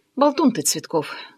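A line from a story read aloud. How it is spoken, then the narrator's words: Tired grumble. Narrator (Russian): устало проворчала я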